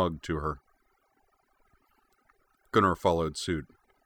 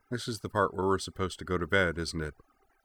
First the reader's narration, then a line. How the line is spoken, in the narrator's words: said softly